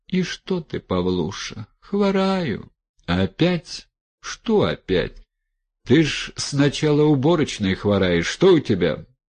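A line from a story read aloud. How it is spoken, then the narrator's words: Quiet, honeyed, compassionate. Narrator (Russian): с видимым состраданием, тихим, медоточивым голосом возвестила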